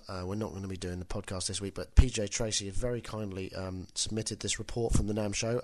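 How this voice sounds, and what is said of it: Voice stuffy from a cold. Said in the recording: “as you can tell, I've got a bit of a cold.”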